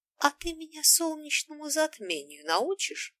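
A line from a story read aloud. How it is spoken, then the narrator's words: Ingratiating question. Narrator (Russian): Вкрадчиво уточнила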